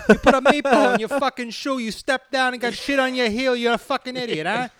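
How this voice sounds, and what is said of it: Put-on Italian-American mafioso accent. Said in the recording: “If I had like a fucking Italian accent ... Mafioso”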